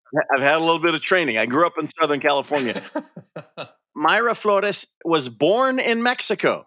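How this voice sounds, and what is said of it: Usual voice. Nothing is said of it.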